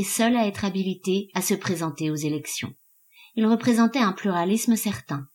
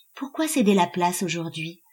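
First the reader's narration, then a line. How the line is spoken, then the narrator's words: Feigned detachment. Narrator (French): demanda Elsée d'un ton faussement détaché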